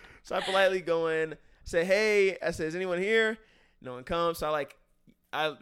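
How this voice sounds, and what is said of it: Usual voice. Nothing is said of it.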